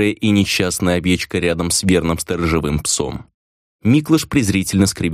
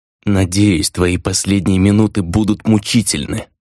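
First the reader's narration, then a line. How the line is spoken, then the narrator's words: Vengeful muttering. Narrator (Russian): мстительно процедил мятежник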